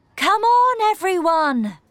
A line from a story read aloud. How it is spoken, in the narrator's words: Mum cried